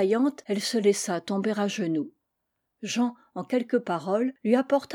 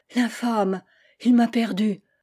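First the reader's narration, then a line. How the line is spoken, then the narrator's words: Exclaimed. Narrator (French): s'écria la duchesse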